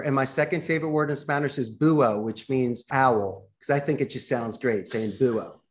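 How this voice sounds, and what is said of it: Philadelphia accent. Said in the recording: “it goes with my O, my Philly accent”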